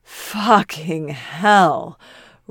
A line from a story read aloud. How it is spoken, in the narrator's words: Roy groans